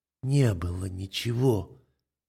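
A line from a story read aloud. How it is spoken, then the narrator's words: Barely audible tearful mumble. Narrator (Russian): Едва слышно бормочет она, в уголках глаз набегают слезы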